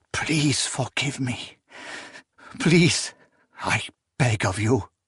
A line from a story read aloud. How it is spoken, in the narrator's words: Proyas hissed